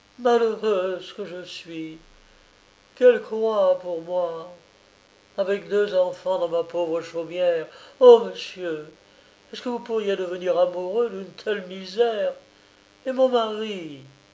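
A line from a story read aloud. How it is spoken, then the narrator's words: Sighing repetition. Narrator (French): répéta-t-elle en soupirant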